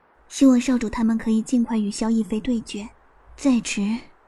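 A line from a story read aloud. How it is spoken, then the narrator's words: Sighing, melodious voice. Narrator (Chinese): 她叹了口气，声音如珠玉落盘般动听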